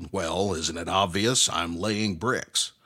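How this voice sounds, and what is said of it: Surly, growling voice. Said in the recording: “in a surly voice growled”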